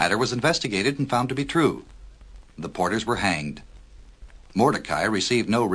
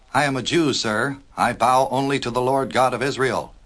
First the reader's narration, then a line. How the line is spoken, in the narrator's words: said Mordecai, mildly but in a very firm tone